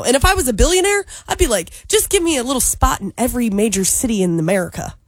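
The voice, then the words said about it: Put-on Southern American accent. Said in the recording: “Why did you put that accent on? ... accent when I'm at my Tennessee house ... I'm a Southern Belle ... you turn into that Southern accent”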